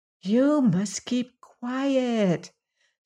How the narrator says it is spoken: said the cat in a soft voice

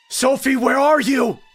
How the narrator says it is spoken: I screamed frantically

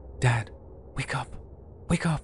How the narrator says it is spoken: my son is standing by my bed, shaking me awake and whispering

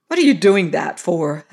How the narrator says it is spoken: asked Caroline harshly

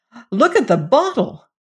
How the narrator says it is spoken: And suddenly the junior secretary cried out

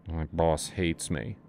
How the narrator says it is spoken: Asa mumbled

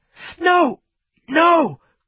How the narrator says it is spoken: cried Fritz

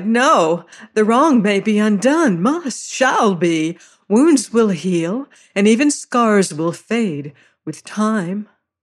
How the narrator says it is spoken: she cried

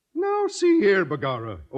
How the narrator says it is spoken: O'Houlihan exclaimed with a merry twinkle in his Irish eye

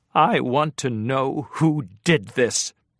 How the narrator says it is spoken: she said in a shaking voice

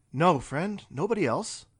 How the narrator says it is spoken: said Colton

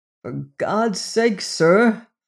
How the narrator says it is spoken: groaned Robert

